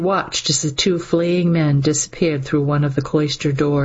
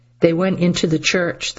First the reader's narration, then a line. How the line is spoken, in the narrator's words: the prior said